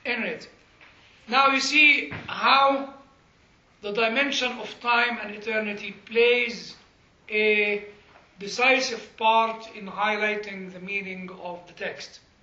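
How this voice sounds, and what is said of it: Non-native Semitic accent in English. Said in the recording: “a program that can actually understand my accent ... this is meant for European American people, not for Semitic people like me. It doesn't get my accent, doesn't get my English”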